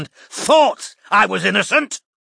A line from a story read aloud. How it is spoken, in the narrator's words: bellowed Roy